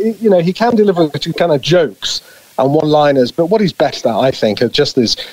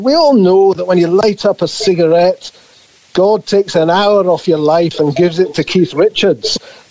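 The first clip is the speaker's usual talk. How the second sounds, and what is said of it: Attempted Glaswegian Scottish accent. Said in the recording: “forgive me, Scottish listeners, for my attempt at a Scottish, a Glaswegian accent.”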